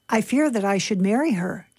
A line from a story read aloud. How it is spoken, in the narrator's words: John replied